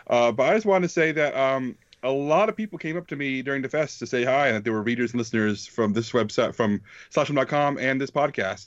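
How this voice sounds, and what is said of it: Sick, congested voice from cold. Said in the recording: “my voice may sound, I am sick. I have a cold.”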